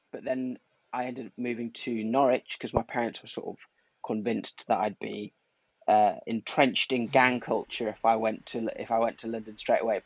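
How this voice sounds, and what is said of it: Blended northern English accent, slightly Midlands. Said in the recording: “your accent. You've got this, like, well, generally blended northern, ... little bit of Midlands. ... Yeah, it's quite blended, isn't it?”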